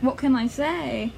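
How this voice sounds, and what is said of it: Put-on British accent. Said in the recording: “Tell me something with British accent. ... Well, that's a good one already.”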